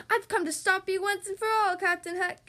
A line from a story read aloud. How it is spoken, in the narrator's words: cried Peter